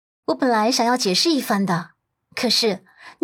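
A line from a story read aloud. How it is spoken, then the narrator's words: Cold, deliberate, forceful. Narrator (Chinese): 他冷冷的……一字一句掷地有声道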